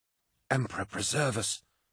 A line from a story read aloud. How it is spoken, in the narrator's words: whispered Moderati Kassar, unable to hide his horror and not caring who heard him